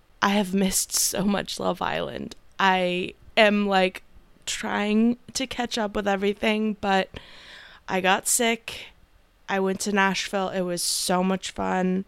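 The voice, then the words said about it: Slightly hoarse, partly lost voice. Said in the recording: “my voice is still a little bit gone, but I'm almost there. It's almost back”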